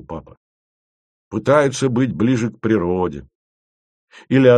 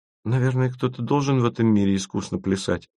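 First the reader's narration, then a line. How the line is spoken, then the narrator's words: Thoughtful. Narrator (Russian): задумчиво промолвила Маша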